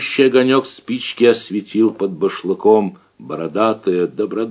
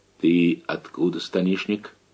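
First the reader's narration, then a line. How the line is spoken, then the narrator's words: Quiet timid question. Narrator (Russian): Яков Лукич осмелился тихо спросить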